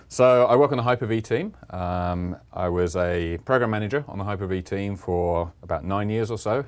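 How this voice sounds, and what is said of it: English accent. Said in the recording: “you can probably tell from the accent, I'm English, the same as you.”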